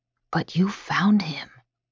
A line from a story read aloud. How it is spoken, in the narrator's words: he whispers, eyes wide